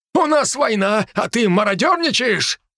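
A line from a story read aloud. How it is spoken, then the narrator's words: Shouting. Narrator (Russian): закричал он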